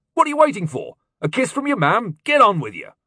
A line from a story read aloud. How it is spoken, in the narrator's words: father said sharply